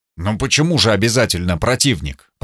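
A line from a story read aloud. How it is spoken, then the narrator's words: Mutter. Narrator (Russian): пробормотал я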